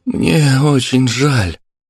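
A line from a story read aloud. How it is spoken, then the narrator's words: Forced out with effort. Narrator (Russian): выдавила из себя Марина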